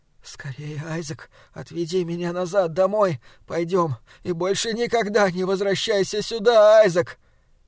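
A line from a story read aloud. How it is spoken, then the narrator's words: Terrified whisper. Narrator (Russian): мать в ужасе зашептала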